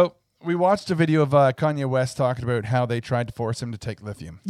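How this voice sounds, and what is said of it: Usual voice. Nothing is said of it.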